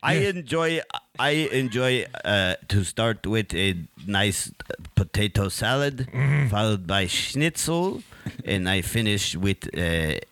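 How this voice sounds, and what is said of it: Put-on German accent. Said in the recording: “you must use an accent of a German frog”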